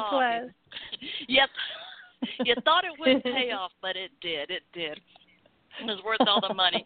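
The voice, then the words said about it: Southern American accent. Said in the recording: “I know I have a Southern accent, but I don't talk like Scarlett O'Hara”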